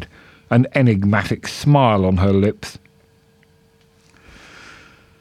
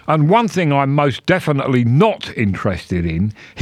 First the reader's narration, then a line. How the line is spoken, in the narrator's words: shouted